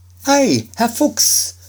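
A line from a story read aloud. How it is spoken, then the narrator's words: Called out. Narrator (German): rief Schneiderlein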